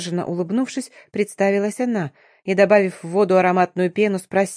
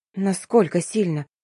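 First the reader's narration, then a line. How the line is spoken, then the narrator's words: Breathless faltering babble. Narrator (Russian): затаив дыхание, пролепетала я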